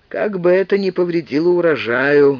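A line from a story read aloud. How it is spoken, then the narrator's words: Gloomy, priest. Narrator (Russian): мрачно сказал священник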